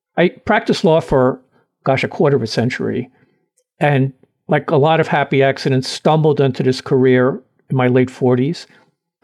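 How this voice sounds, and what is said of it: Brooklyn New York accent. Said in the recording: “very New York, very Brooklyn, as you can tell by my accent, New York born and bred.”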